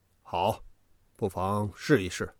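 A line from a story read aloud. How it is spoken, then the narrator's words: Cold. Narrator (Chinese): 只是冷冷地说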